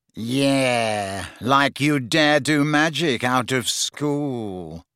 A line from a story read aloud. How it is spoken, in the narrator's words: sneered Malfoy